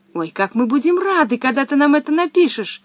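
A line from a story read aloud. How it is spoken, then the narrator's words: Excited exclamation. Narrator (Russian): воскликнул Томми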